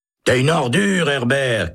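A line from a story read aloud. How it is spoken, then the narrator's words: Shouting. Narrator (French): crie Holt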